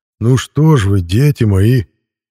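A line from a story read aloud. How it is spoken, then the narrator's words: Mournful drawl, smiling. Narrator (Russian): заунывным голосом начал Мирон, не переставая улыбаться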